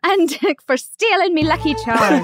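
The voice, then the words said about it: Put-on Irish accent. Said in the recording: “I got one Irish accent and it's hilarious”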